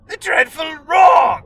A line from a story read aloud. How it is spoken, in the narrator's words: cried the anguished Din